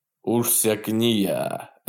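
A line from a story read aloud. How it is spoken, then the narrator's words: Cheerful deep voice. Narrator (Russian): весело пробасил Рамирес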